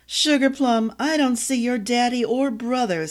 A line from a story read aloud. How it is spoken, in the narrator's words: said with a chuckle